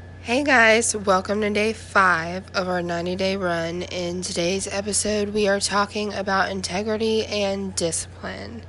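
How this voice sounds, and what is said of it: Slightly sick-sounding voice. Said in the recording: “I sound a little sick”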